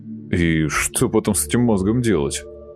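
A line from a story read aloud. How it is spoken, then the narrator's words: Skeptical snort. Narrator (Russian): хмыкнул Антон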